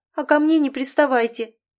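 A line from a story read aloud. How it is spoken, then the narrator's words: Sobbing. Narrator (Russian): всхлипнула она, явно не готовая к разговору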